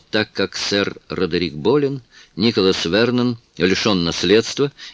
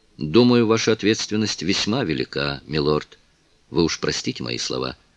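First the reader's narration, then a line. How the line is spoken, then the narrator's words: Plain. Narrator (Russian): сказал майор Фостер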